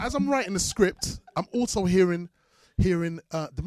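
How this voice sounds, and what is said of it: Usual voice. Nothing is said of it.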